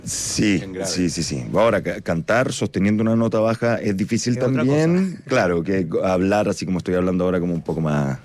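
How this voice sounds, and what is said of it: Low, deep radio announcer voice. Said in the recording (Spanish): “tengo una voz más baja... tiene voz radial así como más antiguo... Tiene voz de locutor”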